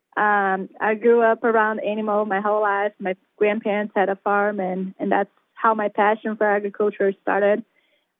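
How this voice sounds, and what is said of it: Slight Brazilian accent. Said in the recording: “I have a little bit of accent. So I'm actually from Brazil.”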